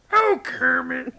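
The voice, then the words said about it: Miss Piggy impression. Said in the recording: “your Miss Piggy impersonation”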